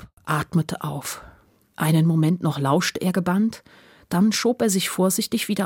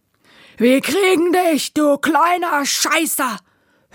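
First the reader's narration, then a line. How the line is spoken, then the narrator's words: Shouting. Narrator (German): einen brüllen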